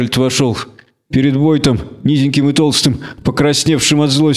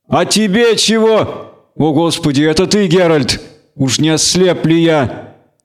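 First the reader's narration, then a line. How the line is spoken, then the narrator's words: Shouted. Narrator (Russian): крикнул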